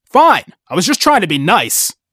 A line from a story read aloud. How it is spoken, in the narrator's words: shouted